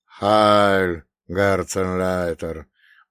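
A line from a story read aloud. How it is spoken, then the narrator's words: Weary greeting. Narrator (Russian): Устало присоединился к приветствию и Вальтер Бунге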